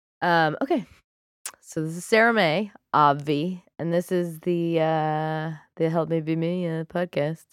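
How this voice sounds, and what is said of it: Congested, husky voice from cold. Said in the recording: “I have a little cold. That's why I sound incredibly sexy.”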